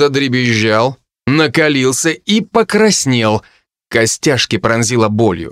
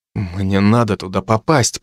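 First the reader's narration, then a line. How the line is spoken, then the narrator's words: Through gritted teeth. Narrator (Russian): процедил я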